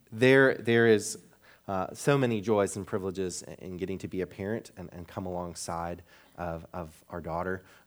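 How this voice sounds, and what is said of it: Slightly raspy tired voice. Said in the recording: “my voice is at all raspy today, it's because I was up for 3 hours last night”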